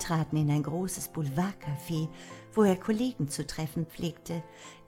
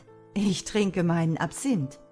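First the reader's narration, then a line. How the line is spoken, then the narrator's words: Laughing answer. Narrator (German): Er antwortete lachend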